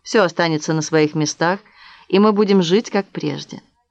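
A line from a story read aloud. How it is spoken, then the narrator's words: Calm repetition. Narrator (Russian): повторил он спокойным тоном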